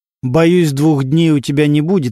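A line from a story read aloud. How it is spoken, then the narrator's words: Plain. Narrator (Russian): ответил Костя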